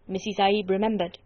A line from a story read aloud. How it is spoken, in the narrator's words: he said